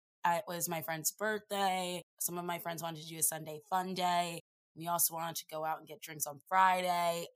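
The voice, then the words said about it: Husky, rough hungover voice. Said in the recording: “my voice sounds this sexy and alluring and mysterious ... I am so hungover. My voice sounds like”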